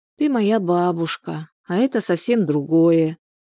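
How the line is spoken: Sighed. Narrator (Russian): вздохнула Любаша

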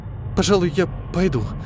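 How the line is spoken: Quiet mumble. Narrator (Russian): тихо пробормотала

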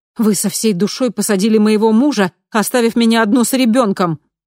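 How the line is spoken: Angry blurt. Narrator (Russian): зло выпалила я

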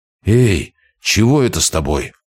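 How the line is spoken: Muffled exhale. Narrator (Russian): глухо выдохнул Тигран

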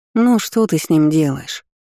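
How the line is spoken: Unsympathetic sigh. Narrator (Russian): Абсолютно без сочувствия вздохнула Рамин

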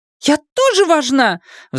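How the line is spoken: Shrill squeal. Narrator (Russian): взвизгнула она

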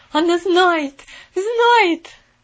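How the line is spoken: Terrified scream. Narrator (Russian): в ужасе закричала сиделка

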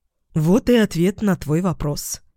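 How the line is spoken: Calm, hiding elation. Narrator (Russian): спокойно сказала я, хотя внутри ликовала

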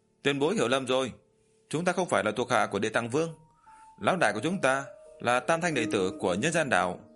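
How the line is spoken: Loud reply. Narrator (Vietnamese): Tam Đầu Quỷ Vương lớn tiếng trả lời

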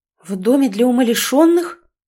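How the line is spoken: Shocked breathless gasp. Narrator (Russian): потрясенно выдохнула

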